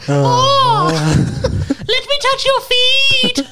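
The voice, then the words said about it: Cartoon character voice impression. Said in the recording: “do your Mort impression.”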